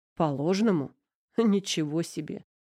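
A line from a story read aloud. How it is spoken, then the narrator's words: Serious, suppressed laugh. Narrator (Russian): Манин едва не хохотнул, но вовремя осекся и продолжил серьезно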